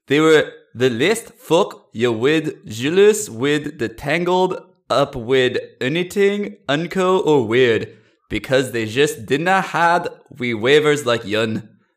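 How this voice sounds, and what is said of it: Reads aloud in a put-on accent. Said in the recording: “while I'm doing a bit of an accent, I'm also reading it word for word”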